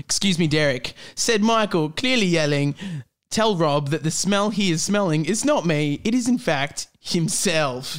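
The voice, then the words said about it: Australian accent. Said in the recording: “now I'm about to go back into the Australian accent of the characters”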